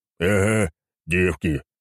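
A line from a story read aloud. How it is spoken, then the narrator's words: Deep bass voice. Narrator (Russian): пробасил Хорнборн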